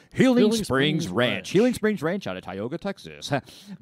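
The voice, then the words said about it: Radio announcer voice. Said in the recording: “my radio voice?”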